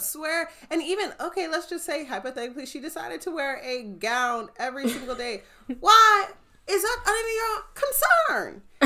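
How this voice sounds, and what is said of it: Loud, irritated raised voice. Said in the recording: “Do you see how loud my voice is getting? Because I'm irritated.”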